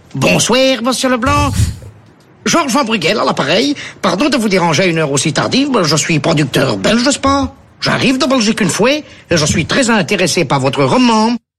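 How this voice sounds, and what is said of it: Put-on Belgian French accent. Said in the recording (French): “Je prends l'accent belge? ... il a le même accent”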